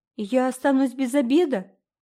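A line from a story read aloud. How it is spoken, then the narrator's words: Wailing. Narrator (Russian): взвыл Дэви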